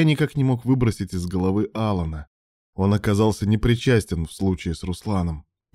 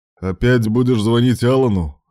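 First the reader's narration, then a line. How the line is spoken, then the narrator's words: Wry snort. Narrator (Russian): хмыкнул Руслан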